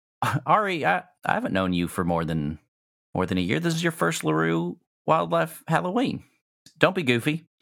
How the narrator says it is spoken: she smiles, and then she laughs, and she says

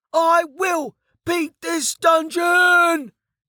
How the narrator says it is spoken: he yelled

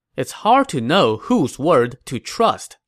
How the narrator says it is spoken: Zhuge Liang said

